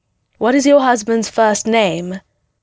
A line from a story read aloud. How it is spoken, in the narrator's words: Porbo grunted at Ren